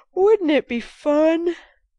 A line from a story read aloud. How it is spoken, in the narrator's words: answered Jo, yawning dismally